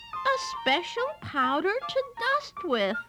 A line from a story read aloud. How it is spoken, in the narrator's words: exclaimed Amelia Bedelia